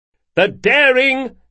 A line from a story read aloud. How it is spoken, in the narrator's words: shouted Galdo